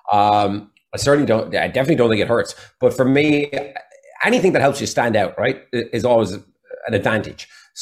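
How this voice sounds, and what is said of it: Irish accent. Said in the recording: “Is it an advantage being Irish ... I think the accent helps”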